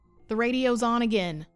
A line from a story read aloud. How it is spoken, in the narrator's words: Kai yelled, panicked